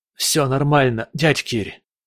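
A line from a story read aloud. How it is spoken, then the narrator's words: Hoarse, strained croak. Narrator (Russian): прохрипел я, с трудом разлепив губы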